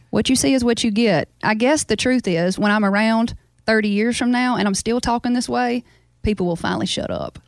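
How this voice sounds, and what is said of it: Louisiana Southern accent. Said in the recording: “I probably have kept my accent because I talk to my family a whole lot ... all 200 of my people in my town in Baskin talk this way ... there's all kind of different accents in Louisiana”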